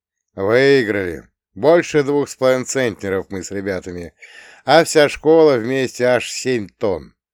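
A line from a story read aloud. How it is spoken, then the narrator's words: Joyful boasting. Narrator (Russian): Радостно похвастался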